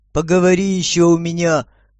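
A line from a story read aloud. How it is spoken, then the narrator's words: Through gritted teeth. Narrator (Russian): процедил сквозь зубы мужчина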